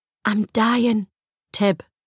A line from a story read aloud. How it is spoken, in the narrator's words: whispered